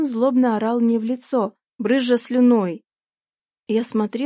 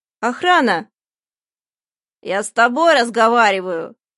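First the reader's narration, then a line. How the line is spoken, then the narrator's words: Growled. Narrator (Russian): прорычал он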